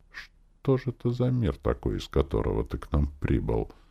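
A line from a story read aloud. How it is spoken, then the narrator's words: Mage grumbling. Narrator (Russian): Пробурчал маг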